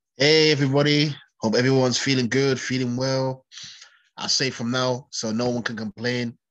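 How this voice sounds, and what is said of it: Congested, stuffed-up voice from cold. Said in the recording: “I'm feeling a bit snotty. ... I have a bit of a cold, ... We're both a little bit stuffed up.”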